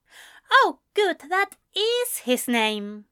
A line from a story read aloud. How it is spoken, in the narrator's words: Ezra smiled triumphantly